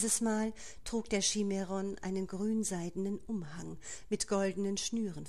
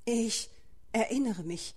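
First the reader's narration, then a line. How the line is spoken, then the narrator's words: Stammered. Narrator (German): stotterte Jaden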